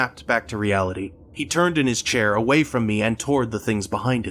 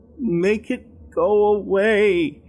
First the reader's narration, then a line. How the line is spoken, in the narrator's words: timidly whined